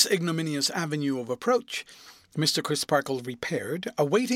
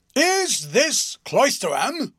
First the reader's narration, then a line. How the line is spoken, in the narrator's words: demanded the passenger in a tremendous voice